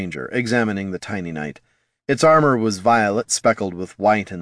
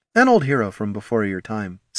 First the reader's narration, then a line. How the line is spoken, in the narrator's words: said